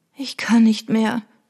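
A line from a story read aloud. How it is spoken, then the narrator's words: Groaning. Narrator (German): stöhnte Trudy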